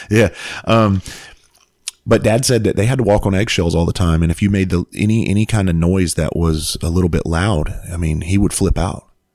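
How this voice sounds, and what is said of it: Hoarse voice. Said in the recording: “I'm sorry if I'm hoarse, by the way. It's been very active on stages recently.”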